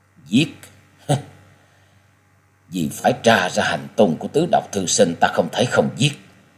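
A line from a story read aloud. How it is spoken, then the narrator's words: Sighing mutter. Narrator (Vietnamese): Quyết Ma Thiên Tôn cất lên tiếng thở dài lẩm bẩm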